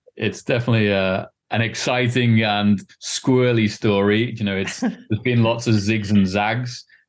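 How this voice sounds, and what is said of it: Non-Californian English accent. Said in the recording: “you obviously have not a California accent”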